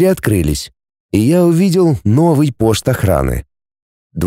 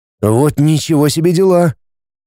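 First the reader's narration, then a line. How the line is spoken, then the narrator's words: Bewildered speech. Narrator (Russian): растерянно проговорил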